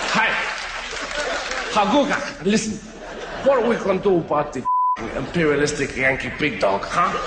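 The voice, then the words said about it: Exaggerated generic foreign accent. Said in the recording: “I'm doing a pan-global accent”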